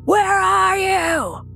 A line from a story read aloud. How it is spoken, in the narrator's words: The wild anger in his voice was tangible through the walls, and he just yelled into the street